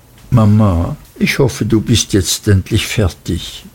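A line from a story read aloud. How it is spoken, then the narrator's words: Very quiet, trembling voice. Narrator (German): sagte dann sehr leise mit bebender Stimme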